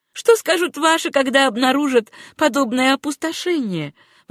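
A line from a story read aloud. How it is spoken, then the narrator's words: Embarrassed exclamation. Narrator (Russian): воскликнула Сюзанна, с некоторым смущением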